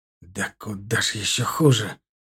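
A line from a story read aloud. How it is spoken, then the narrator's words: Hiss. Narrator (Russian): прошипел Нарыв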